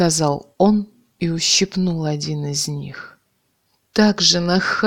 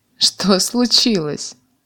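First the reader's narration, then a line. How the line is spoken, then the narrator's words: Laughing man. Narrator (Russian): засмеялся мужик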